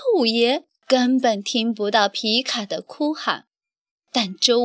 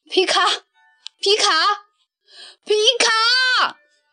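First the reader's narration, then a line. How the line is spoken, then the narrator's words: Panicked calling in all directions. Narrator (Chinese): 周五爷顿时慌了神…向四面八方呼喊着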